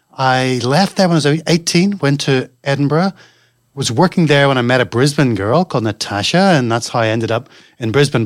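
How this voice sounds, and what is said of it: Mixed Northern Irish, Scottish, London accent. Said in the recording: “it's not a native accent that you've got ... my accent is pretty stuffed up. There's Northern Irish, Scottish, a little bit of London, mate, some Californian”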